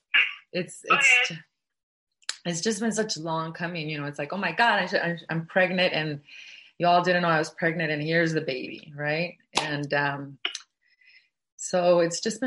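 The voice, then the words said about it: Emotional, voice close to tears. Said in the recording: “I'm actually getting emotional about it”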